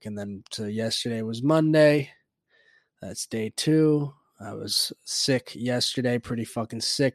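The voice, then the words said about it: Stuffed-up, sick voice. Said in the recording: “It's the fucking sore throat ... I said I was going to be all stuffed up, coughing up. And that's exactly what I am.”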